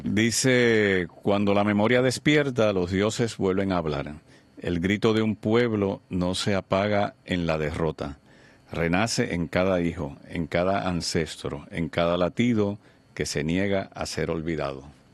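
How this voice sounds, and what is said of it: Announcer voice. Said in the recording (Spanish): “Vamos, tú una voz de locutor.”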